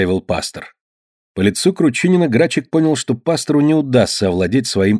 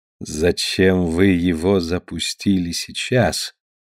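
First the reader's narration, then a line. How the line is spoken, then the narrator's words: Quiet question. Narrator (Russian): негромко спросил пастор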